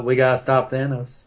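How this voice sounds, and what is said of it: Bad Matthew McConaughey impression. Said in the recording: “my horrible Matthew McConaughey impression”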